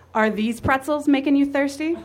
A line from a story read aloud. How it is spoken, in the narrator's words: Jerry said wickedly